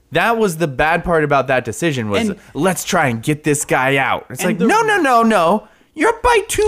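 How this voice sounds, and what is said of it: Usual voice. Nothing is said of it.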